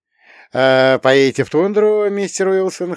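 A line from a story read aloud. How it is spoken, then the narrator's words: Chuckling. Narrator (Russian): хохотнул я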